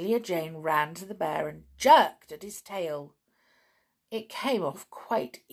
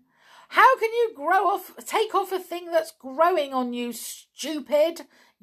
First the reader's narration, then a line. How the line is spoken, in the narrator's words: yelled back, the teddy